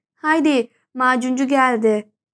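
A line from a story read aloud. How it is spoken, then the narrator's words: Crying out. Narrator (Turkish): diye haykırıyordum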